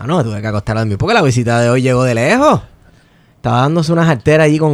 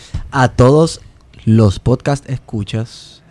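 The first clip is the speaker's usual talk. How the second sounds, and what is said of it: Put-on radio announcer voice, sleepy. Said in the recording (Spanish): “Y esa voz de radio. ... suenas a que estás dormido”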